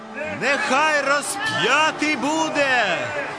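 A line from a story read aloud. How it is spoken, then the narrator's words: Crowd shouting. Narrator (Ukrainian): Усі закричали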